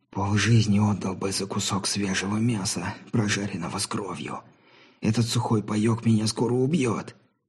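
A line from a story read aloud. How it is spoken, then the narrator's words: Barely audible breath. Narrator (Russian): едва слышно выдохнул Билли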